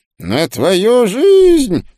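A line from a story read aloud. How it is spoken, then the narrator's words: Sepulchral preacher's voice. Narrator (Russian): за могильным голосом сказал проповедник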